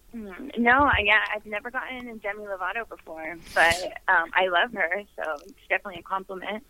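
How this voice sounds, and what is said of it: New York-sounding American accent. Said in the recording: “your accent seems to be more New York ... that sounds very, very New York to me”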